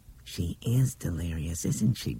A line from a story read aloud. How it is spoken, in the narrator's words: Bethany whispered